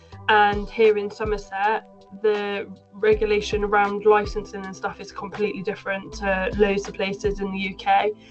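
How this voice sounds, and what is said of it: Somerset English accent. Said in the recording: “you can probably tell from my accent, I'm from Somerset”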